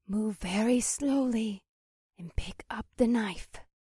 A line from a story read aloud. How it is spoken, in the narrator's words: I struggled to hear her whisper